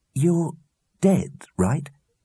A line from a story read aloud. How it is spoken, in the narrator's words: said slowly